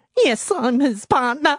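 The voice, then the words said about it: Impression of Nina from Offspring. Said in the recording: “my impression ... That is poor Nina, who's just... She's just lost the love of her life.”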